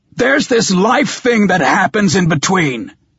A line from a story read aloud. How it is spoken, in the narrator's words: I snarled